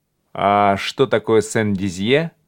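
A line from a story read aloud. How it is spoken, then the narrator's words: Plain. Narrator (Russian): спросил Фляж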